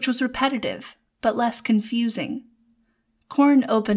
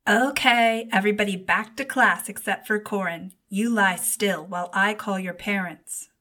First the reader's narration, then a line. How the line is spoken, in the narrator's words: the nurse said